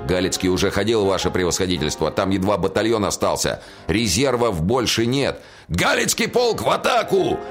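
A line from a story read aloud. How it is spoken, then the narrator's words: Barked command. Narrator (Russian): рявкнул генерал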